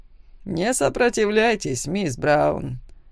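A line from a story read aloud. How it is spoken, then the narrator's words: Cold. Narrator (Russian): холодно сказал Валериус Вейл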